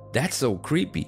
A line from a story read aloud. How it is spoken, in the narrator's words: cried Jenny